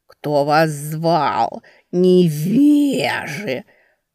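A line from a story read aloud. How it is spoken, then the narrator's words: Nasal drawl, cat. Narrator (Russian): потянул кот гнусаво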